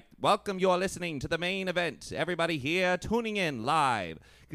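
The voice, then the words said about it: Old-time radio announcer voice, drawn-out consonants. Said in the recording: “radio announcers back in the day had that, like, distinct voice ... you had to really draw out your consonants”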